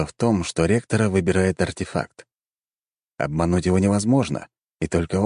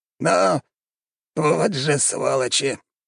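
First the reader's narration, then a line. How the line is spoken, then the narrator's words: Old man grumbling. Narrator (Russian): пробурчал старик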